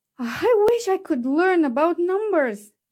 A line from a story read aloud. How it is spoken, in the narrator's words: she sighed